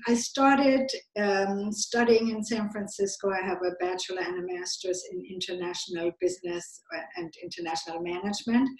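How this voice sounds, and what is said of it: Slight German accent. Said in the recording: “you might hear from my accent that I grew up in Germany, so I have a German accent still a little bit”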